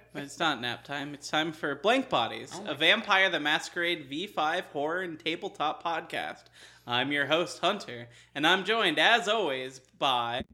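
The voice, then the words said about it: Announcer-style radio host voice. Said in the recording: “You sound like a video announcer. ... When did you become a radio host?”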